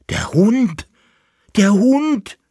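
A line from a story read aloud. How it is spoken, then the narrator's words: Screaming. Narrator (German): schrie er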